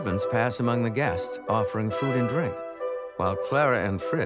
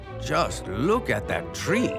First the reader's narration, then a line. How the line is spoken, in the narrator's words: everyone who enters exclaims